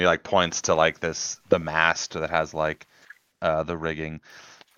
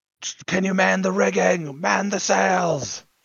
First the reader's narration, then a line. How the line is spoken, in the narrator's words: Simon yell